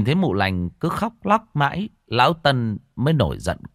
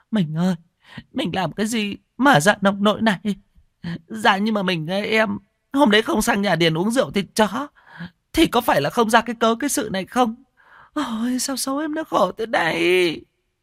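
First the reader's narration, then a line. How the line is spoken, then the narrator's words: Whining tearful wailing. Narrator (Vietnamese): mụ lành cứ thế mà đứng ỉ ôi khóc lóc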